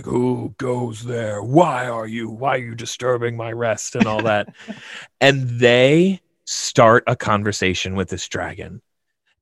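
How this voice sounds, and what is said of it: Dragon character voice. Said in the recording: “I put on my dragon voice”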